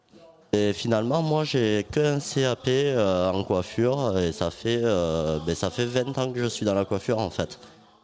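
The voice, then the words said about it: Slight Toulouse southwestern French accent. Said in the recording (French): “un petit accent toulousain qui traîne ah dans le fond de la gorge. C'est le sud-ouest, c'est le sud-ouest.”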